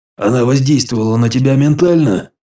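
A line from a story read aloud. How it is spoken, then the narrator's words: Snorting. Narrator (Russian): Я хмыкнул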